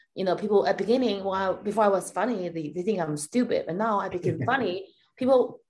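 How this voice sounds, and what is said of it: Chinese accent. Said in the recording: “I have an accent. I wish I don't, but I fucking I do ... This bitch has a Chinese accent”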